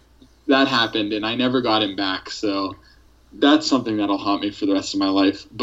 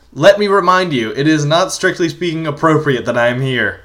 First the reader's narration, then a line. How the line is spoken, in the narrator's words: keep yelling